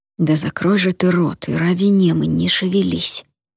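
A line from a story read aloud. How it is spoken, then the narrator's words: Whisper through clenched teeth. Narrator (Russian): прошептал сквозь стиснутые зубы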